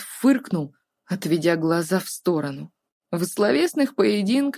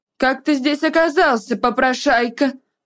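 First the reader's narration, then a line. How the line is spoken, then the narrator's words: Nasty, deliberately loud. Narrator (Russian): Противным и нарочито громким голосом осведомилась мама Гэта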